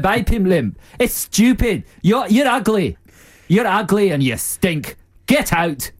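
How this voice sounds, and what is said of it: Weak put-on Scottish accent. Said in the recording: “I just like that Scottish accent ... It's not very good, is it? It's like Robin Williams' is one in Mrs. Doubtfire.”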